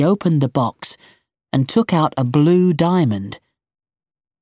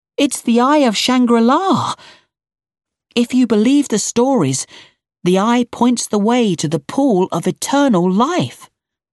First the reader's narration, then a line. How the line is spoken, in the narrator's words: shouted